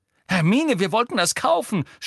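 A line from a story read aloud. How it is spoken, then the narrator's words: Shouting. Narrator (German): schrie Ron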